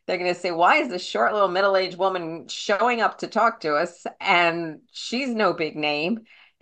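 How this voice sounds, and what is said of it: Queens New York accent. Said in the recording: “They're going to hear my queen's accent”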